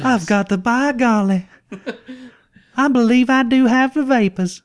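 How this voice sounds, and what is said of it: Exaggerated joke Georgia Southern accent. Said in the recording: “my Georgia little accent ... the joke accent”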